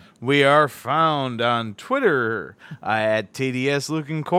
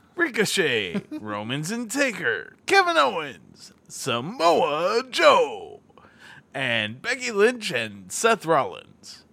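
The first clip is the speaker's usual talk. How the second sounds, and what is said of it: Exaggerated announcer voice. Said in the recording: “How's that for my announcer voice? ... Pretty fucking awful”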